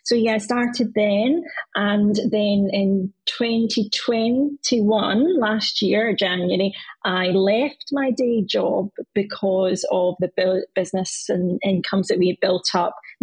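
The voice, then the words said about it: Glaswegian Scottish accent. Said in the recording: “we're based in Glasgow, up here, hence the accent”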